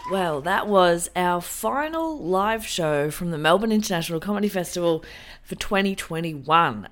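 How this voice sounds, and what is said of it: Sick, unwell-sounding voice. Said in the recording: “As you can hear from my voice, I've been a bit sick”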